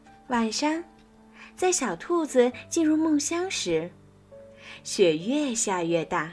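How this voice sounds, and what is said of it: Usual voice. Nothing is said of it.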